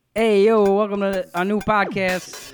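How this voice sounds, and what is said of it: Exaggerated Philly accent. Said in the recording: “Try to do it in your most Philly accent.”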